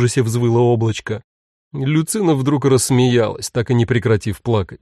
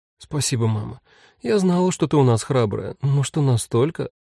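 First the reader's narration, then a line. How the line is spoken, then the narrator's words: Bitter sigh. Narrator (Russian): Мила только горько вздохнула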